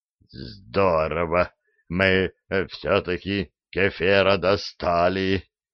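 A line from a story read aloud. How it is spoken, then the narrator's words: Terrified mutter. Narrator (Russian): пробормотал насмерть перепуганный Диффенбахи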